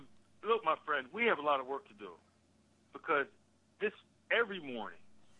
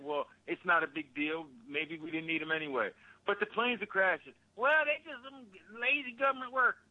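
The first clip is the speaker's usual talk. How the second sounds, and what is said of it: Exaggerated Southern American accent. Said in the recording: “I'm just doing a little stupid Southern accent”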